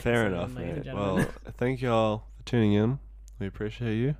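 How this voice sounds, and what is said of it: Strained, worn-out voice. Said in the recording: “Sorry if my voice is still a bit shot”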